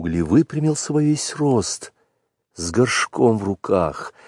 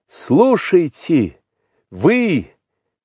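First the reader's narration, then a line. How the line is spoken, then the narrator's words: Shout. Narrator (Russian): крикнул он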